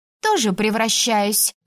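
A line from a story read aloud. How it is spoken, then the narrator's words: Snapping retort. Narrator (Russian): огрызнулась Элайза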